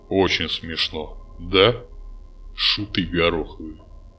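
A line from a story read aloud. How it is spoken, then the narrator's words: Gloomy. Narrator (Russian): мрачно сказал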